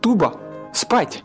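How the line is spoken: Shouting. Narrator (Russian): Я крикнул

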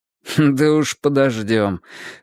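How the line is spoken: Amused snort. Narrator (Russian): хмыкнул Юджин

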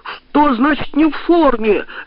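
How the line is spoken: Shouting. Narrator (Russian): закричал он

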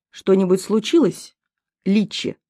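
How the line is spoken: Snide. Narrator (Russian): спросил он ехидно

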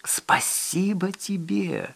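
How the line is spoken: Barely audible rustle. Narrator (Russian): едва слышно прошелестел он

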